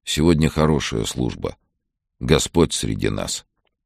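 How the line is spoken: Quiet. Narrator (Russian): тихо сказал

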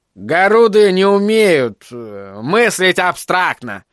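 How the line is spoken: Mocking nasal imitation. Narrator (Russian): произнес Дэвид, подражая гнусавому голосу заводилы зловещей партии

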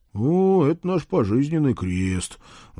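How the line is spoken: Sighing. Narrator (Russian): вздохнул я

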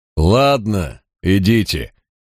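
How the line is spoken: Said after laughing. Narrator (Russian): произнес он, отсмеявшись

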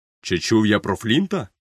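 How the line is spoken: Exclamation. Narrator (Ukrainian): вигукнув Сквайр

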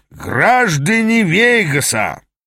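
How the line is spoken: Booming. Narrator (Russian): прогремел Аас

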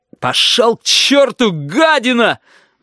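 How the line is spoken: Roar. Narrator (Russian): взревел Корнелий

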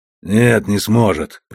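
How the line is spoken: Muttered. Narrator (Russian): пробормотал Костоправ

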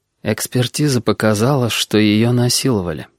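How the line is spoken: Flat colorless voice. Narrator (Russian): ответила хозяйка абсолютно бесцветным голосом

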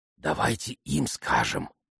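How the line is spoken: Whispered suggestion. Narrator (Russian): шепотом предложил Алфи

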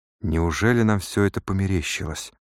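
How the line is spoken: Whisper. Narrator (Russian): прошептал Сайрес Смит

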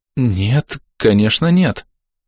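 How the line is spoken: Stammering, frightened. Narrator (Russian): запинаясь, испуганно отвечает Пипа

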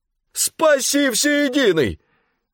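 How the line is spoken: Shouting. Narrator (Russian): крикнул жандарм

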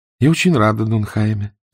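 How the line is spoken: Soft. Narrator (Russian): сказала она мягко

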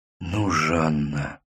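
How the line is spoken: Whispering. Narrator (Russian): шептал Мустафа

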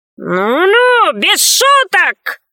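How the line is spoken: Shouted. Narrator (Russian): закричал добрец

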